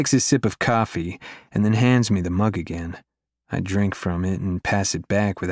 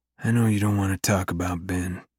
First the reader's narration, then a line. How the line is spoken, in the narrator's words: he says quietly